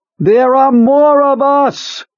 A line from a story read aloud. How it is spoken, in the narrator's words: Beaver screamed at the man leaning out of the helicopter